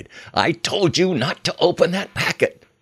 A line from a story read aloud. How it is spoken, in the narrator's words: screamed the soldier in charge